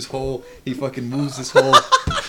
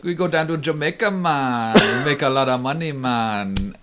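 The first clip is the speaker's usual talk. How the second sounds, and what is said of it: Exaggerated put-on Jamaican accent. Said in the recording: “Like this quasi-offensive accent.”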